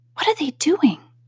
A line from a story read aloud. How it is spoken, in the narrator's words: Alice whispered to the Gryphon